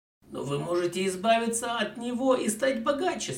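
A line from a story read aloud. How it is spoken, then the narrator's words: Plain. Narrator (Russian): сказал Смит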